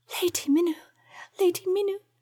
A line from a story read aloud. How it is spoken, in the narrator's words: whispered heartbrokenly through her tears